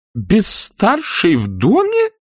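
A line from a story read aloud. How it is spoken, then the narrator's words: Horrified old woman exclaiming. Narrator (Russian): в ужасе воскликнула старая дама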